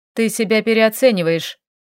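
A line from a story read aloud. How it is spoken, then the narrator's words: Cold. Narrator (Russian): холодно ответил эльф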